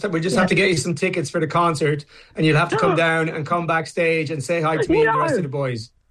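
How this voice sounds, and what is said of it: Irish accent. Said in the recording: “putting on an adorable Irish accent”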